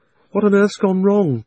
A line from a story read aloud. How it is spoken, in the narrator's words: said Polly in a frightened voice, but not quite so frightened as you might expect, because it's hard to feel really frightened in that wood